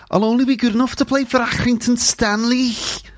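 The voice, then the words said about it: Liverpool accent. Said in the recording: “So there's your introduction to uh, the Liverpool accent... that thing, that sound, you get that when it's normally a K sound”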